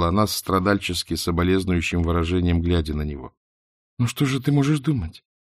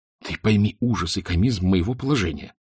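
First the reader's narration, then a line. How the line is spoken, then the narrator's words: Desperate whisper. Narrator (Russian): продолжал он отчаянным шепотом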